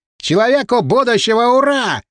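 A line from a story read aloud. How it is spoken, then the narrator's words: Yelled. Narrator (Russian): заорал он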